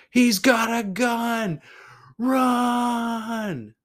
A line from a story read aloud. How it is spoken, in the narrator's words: someone screamed out